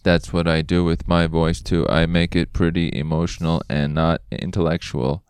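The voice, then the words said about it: Flat robotic voice. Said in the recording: “robot voice”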